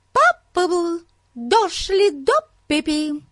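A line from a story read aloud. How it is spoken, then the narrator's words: High piercing voice. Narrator (Russian): сказала она высоким пронзительным голосом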